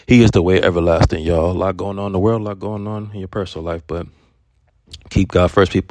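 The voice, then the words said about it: Sick, unwell-sounding voice. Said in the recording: “I feel a little sick at the moment right now. That's why my voice sounds the way it does”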